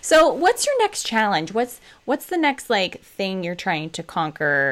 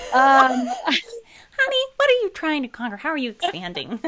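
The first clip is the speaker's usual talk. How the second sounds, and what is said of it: Imitates a mother's voice. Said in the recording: “you sound like my mom”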